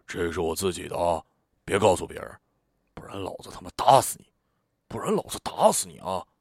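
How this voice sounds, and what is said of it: Quiet, serious whisper. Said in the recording (Chinese): “小声而严肃的说”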